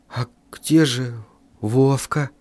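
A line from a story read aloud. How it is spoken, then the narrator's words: Whisper. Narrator (Russian): прошептал я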